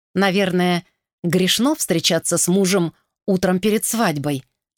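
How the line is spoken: Plain. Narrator (Russian): сказала она

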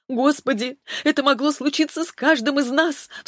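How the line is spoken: Sobbing. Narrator (Russian): всхлипнула

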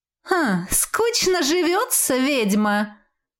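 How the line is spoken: Snide mocking question. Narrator (Russian): ехидно поинтересовалась квазара

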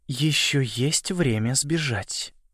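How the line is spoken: Mutter. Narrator (Russian): пробормотала Уинтер

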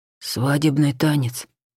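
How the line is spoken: Whisper close to ear. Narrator (Russian): прошептал Анхель у меня за ухом

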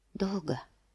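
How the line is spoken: Whispered. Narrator (Russian): прошептала

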